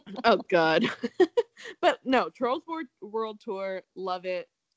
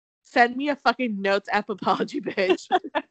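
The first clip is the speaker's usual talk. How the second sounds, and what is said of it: Put-on British accent. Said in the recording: “your British accent”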